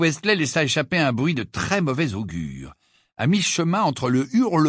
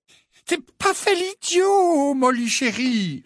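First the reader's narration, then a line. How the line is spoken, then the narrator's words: Pleading tone. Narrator (French): répondit Monsieur Westley d'un ton implorant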